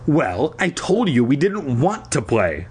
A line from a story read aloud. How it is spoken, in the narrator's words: I replied sharply